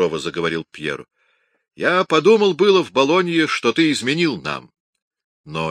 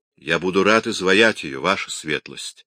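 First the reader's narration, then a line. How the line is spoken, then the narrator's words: Calm reply. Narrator (Russian): спокойно ответил Микеланджело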